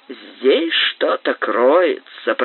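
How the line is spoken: Muttered through teeth. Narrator (Russian): пробормотал он сквозь зубы

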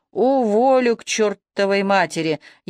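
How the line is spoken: Furious, through gritted teeth. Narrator (Russian): яростно сжимая кулаки, процедил Иващенко

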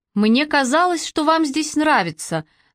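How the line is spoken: Thoughtful. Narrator (Russian): задумчиво сказал

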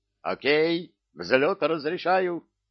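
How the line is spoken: Shouted. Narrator (Russian): Баба Варя выкрикнул

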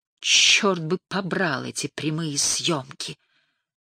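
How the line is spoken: Groaning. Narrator (Russian): простонал Митч Годман

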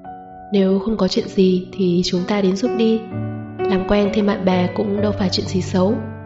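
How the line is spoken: Smiling. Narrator (Vietnamese): chỉ mỉm cười bảo Viên Hỉ

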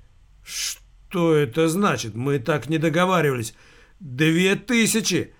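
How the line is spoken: Man groaning. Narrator (Russian): простонал мужик

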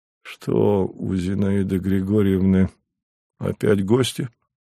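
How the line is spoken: Weary question. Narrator (Russian): устало спросил

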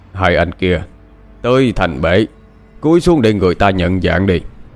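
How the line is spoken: Deep gruff voice. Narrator (Vietnamese): Có tiếng nói ồm ồm cất lên

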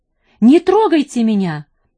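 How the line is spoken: Shrill scream. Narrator (Russian): пронзительно закричал

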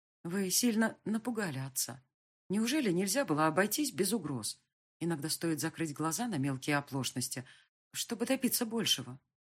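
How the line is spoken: Quiet. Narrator (Russian): сказала я тихо

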